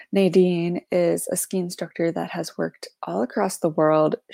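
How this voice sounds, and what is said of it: Slightly raspy voice. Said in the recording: “Sorry for my slightly raspy voice. Promise it is not like that in the episode.”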